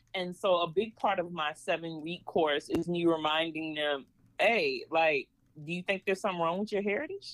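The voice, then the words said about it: Slight Southern country twang. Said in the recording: “I am country as all get out. I am Georgia. ... I hear a little twang.”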